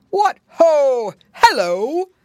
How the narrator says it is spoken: cried Santa Claus when he saw the piggy boys

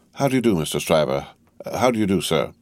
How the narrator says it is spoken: Lorry said, in a simple tone of the voice he would recommend under the circumstances

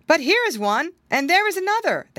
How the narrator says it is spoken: they all exclaimed

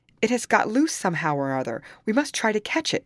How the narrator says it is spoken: cried Rochford

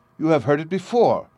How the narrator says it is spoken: cried

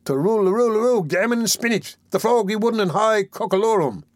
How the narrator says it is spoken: said the Dodger, with a slight sneer

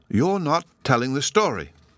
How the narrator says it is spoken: Sylvie exclaimed

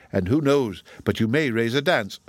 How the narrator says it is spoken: said she

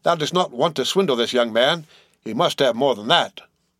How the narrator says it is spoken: cried Peleg

